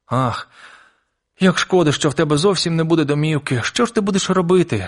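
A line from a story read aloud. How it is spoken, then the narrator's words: Tearful sobbing. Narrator (Ukrainian): схлипнула Мейбл, і по її щоках покотилися сльози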